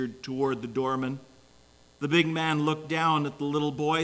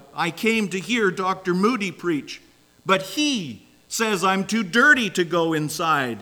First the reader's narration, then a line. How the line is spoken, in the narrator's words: caused Jeffrey to blurt out